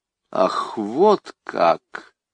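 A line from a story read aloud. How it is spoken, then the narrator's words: Through clenched teeth. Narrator (Russian): сказала она сквозь зубы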